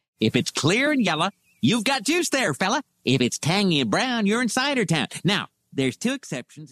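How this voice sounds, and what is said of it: Ned Flanders impression. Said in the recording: “Good Ned Flanders impression.”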